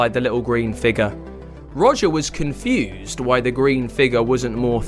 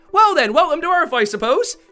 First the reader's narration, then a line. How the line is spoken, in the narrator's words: shouted Delphine